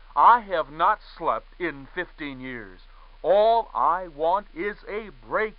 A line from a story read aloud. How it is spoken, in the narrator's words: he said